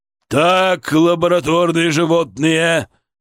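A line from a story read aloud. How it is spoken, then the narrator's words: Barking. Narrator (Russian): рявкнул он на своих интернов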